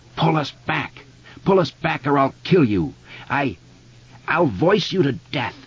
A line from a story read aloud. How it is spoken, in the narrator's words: The spider screeched again